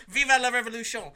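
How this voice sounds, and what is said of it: Bad put-on French accent. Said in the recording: “I said that in a bad French accent.”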